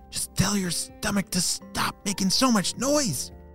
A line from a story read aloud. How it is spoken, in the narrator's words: whispered Ayva